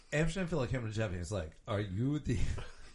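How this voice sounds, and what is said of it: Put-on Serbian accent. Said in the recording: “Can you use the proper Serbian accent when you do it this time?”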